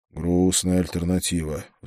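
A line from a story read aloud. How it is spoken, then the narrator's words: Sighing. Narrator (Russian): вздохнул я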